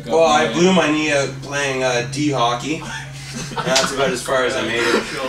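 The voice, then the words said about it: Slight rural Ontario accent. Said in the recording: “I detect a hint of an accent, maybe somewhere other than from downtown Etobicoke.”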